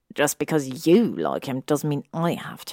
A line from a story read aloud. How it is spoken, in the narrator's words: he said furiously under his breath